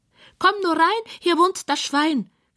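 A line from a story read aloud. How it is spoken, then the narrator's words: Squeal from couch. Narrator (German): quiekt es von der Couch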